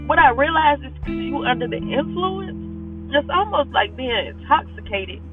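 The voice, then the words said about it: Emotional, strained voice. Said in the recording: “excuse my voice, because this is very emotional for me today”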